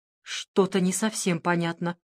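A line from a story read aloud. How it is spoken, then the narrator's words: Muttered. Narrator (Russian): пробормотала Луиза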